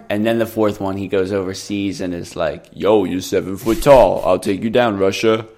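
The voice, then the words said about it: Rocky character impression. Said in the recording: “Really good Rocky impression”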